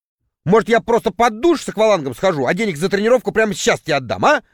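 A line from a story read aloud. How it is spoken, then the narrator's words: Irritated remark. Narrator (Russian): раздраженно заметил я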